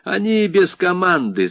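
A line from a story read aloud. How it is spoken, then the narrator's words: Laughing. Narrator (Russian): засмеялся Баклайский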